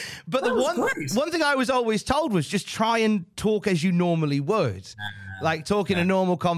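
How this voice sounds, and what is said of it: Usual voice. Nothing is said of it.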